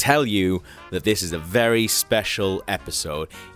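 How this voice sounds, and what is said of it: Usual voice. Nothing is said of it.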